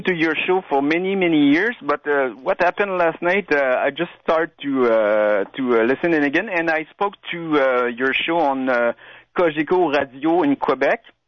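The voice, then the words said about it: French Quebec accent. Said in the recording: “my French accent.... I'm from Quebec.”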